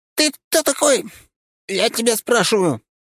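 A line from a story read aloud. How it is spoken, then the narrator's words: Young man shrieking. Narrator (Russian): взвизгнул паренек на вид 20, с едва начавший пробиваться щетиной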